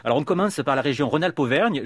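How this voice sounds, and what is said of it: Put-on southern French accent. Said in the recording (French): “je prends l'accent du Sud ... C'est pas l'accent d'Auvergne en tout cas.”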